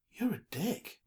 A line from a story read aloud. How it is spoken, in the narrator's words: Mina muttered